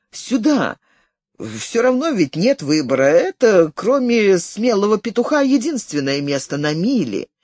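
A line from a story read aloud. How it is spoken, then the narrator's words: Laughing. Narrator (Russian): засмеялся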